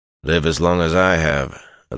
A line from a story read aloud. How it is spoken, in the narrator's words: Elias replied in a dry voice